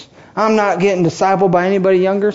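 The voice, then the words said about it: Put-on Southern accent. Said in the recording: “Some of you are Southern all of a sudden. ... What was that voice?”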